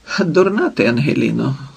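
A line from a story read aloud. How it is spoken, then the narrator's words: Calm reply. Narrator (Ukrainian): спокійно відповів Платон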